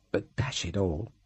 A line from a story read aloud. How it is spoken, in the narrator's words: said feebly